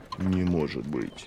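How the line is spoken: Shocked whisper. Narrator (Russian): потрясенно прошептал он

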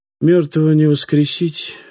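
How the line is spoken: Gloomy speech. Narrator (Russian): мрачно произнес каноник Элюар

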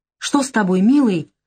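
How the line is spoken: Alarmed exclamation. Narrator (Russian): встревоженно воскликнула Наташа

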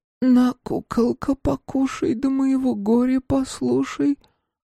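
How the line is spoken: Trembling hoarse girl's voice. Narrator (Russian): Голос девочки дрожал и хрипел

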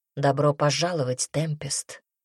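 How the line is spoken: Quiet speech. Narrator (Russian): тихо сказал он

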